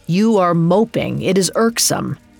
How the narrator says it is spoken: Fjallar grunted

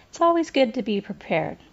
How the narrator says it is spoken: She laughed and caught Raina's eyes, saying

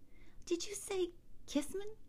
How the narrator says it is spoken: asked softly

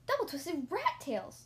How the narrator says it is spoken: I exclaimed

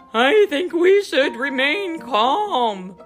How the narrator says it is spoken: Goose yelled back

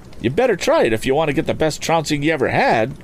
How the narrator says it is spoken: cried Tom hotly

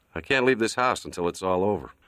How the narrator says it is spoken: Sonny shook his head and said dryly

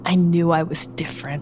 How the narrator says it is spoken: he whispered to his own quivering fingers

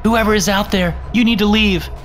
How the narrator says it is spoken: called out

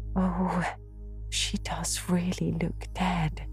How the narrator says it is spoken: whispered Ruby Gillis nervously

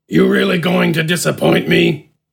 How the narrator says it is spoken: Smidgen grunted

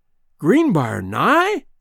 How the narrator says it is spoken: he exclaimed

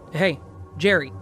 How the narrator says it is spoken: I yell a little more sternly

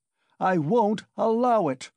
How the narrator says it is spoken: Raskolnikov shouted again

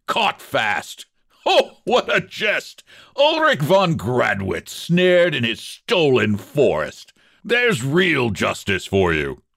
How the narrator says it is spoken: He laughed again, mockingly and savagely

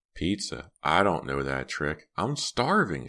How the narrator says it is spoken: cried

